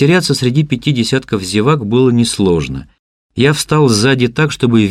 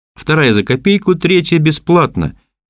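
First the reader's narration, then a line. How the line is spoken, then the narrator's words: Cheerful announcement. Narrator (Russian): бодро объявил мексиканец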